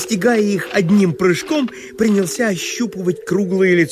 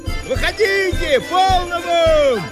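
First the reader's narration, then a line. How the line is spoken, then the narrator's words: Shouted. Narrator (Russian): кричал он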